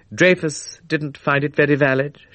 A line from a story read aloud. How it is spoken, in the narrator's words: said dryly